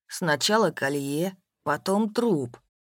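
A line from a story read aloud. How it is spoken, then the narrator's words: Calm. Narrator (Russian): спокойно произнес Степан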